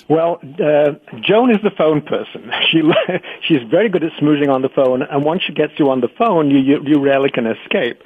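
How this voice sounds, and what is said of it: British accent. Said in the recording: “You've got a British accent”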